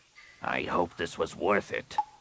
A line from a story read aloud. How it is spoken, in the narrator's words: Rapung growled